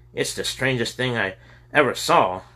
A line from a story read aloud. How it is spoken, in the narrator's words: Robert exclaimed